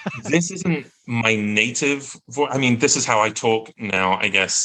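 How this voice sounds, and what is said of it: Usual voice. Nothing is said of it.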